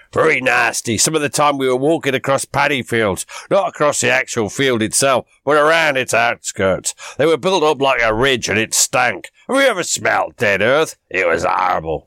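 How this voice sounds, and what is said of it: Norfolk English accent. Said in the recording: “that was my Norfolk accent”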